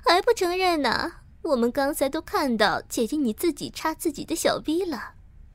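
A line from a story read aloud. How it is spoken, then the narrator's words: Sly laugh. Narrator (Chinese): 小娟狡黠的笑着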